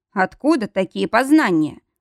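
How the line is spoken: Snorting. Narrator (Russian): хмыкнул Мортон

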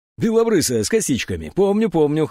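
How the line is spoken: Chuckle. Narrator (Russian): хохотнул Евсеев

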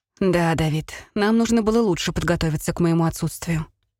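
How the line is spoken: Sigh. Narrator (Russian): вздохнула

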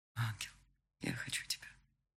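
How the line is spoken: Whisper. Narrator (Russian): шепнул

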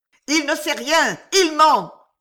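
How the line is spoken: Angry yelling. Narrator (French): vociféra Gilles

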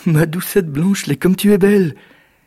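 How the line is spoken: Exclaimed. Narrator (French): s'exclama Jack

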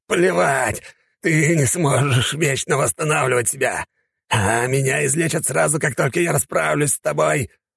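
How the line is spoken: Growling mage. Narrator (Russian): Зарычал маг

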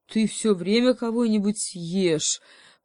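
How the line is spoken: Booming bear voice. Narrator (Russian): прогудел медведь

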